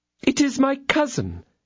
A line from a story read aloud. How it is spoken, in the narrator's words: exclaimed the attorney's wife